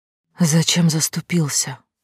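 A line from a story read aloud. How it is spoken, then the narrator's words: Quiet question. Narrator (Russian): спросила тихо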